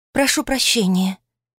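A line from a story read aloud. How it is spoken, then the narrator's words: Quiet reply. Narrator (Russian): тихо отозвалась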